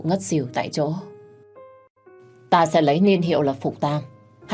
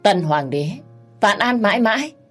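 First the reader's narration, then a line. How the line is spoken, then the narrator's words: Loud laughter. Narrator (Vietnamese): cười lớn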